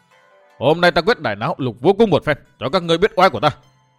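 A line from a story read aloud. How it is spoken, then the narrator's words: Shout. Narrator (Vietnamese): Độc Cô Thanh Tùng chàng quát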